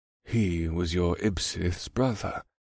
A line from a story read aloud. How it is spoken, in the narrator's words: Scourge added quietly